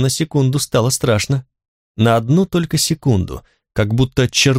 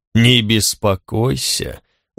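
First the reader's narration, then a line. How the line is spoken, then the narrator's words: Weary. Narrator (Russian): устало сказал Черно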